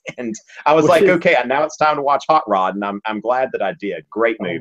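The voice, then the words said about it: Southern American accent. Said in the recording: “when you're a Southerner and you're teaching on YouTube ... I get a lot of comments about my accent.”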